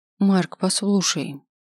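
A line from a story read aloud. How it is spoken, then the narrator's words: Soft. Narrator (Russian): говорю я мягко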